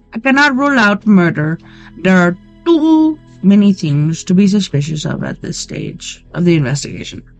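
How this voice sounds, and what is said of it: Put-on Indian-sounding accent. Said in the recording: “I was trying to do a Mexican accent, but I actually did an Indian one.”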